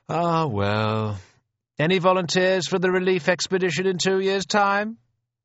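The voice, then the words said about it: Drawling officer's voice. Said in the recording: “a drawl from a Sindh Horse subaltern”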